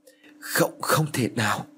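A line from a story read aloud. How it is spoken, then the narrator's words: Trembling. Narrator (Vietnamese): Hắn run rẩy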